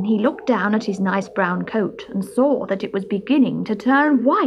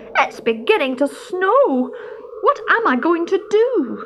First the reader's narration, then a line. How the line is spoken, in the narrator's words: he cried